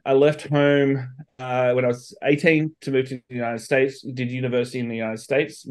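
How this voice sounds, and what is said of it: Slight Australian accent. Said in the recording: “I've got a bit of an accent. I'm from Australia originally.”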